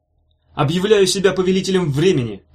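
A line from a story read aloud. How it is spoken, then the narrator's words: Triumphant shout. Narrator (Russian): крикнул он, с торжеством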